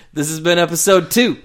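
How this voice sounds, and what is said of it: Italian-sounding accent. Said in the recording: “I keep sounding Italian.”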